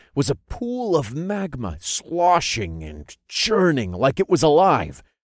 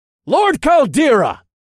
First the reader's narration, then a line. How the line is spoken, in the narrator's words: I shouted over the sounds of the chanting cultists